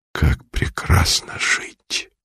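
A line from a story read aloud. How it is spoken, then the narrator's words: Barely audible whisper. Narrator (Russian): едва слышно шептали его губы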